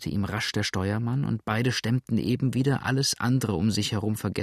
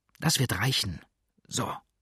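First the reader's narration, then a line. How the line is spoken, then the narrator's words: Whispered. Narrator (German): flüsterte Blackfoot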